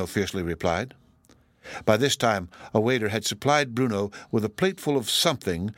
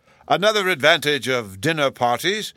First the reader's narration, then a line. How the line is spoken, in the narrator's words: the professor cheerfully explained, for the benefit of anyone that would listen